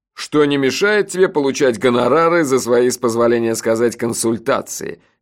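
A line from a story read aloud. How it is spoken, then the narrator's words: Snide interjection. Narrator (Russian): ехидно вставил Джуфин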